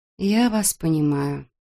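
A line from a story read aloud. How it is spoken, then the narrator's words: Muttered. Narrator (Russian): пробормотала Эбби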